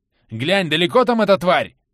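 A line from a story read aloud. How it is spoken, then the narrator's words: Shouted. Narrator (Russian): крикнул Карат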